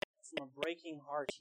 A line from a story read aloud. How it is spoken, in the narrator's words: he pleaded